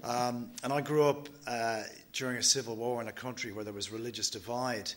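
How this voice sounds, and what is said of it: Non-Australian accent. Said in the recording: “my non-Australian accent”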